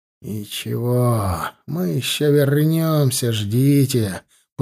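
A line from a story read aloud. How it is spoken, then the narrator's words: Through gritted teeth. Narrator (Russian): процедил сквозь зубы Федот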